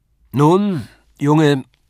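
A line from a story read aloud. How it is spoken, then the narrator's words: Called out. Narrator (German): rief er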